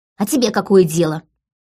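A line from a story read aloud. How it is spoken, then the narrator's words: Habitual snap. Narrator (Russian): Уже привычно огрызнулась Лика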